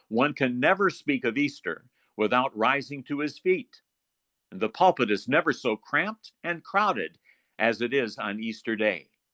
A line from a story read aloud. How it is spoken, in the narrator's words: Martin Luther once exclaimed, he said